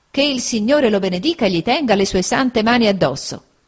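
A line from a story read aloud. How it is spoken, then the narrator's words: Lively exclamation. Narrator (Italian): esclamò vivamente mia zia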